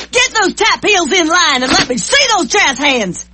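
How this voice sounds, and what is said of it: Drill instructor barking voice. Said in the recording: “My impression of a drill instructor”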